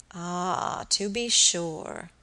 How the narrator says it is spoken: muttered Mr

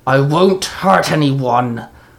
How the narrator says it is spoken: the girl growled

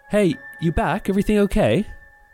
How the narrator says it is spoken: she called out

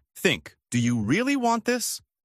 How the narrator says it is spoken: Sophie, my human lie detector, snapped

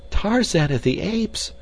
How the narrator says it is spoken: she cried

